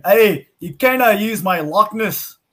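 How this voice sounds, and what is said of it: Put-on Scottish accent. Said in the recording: “a Scotsman saying ... it's all about the accents”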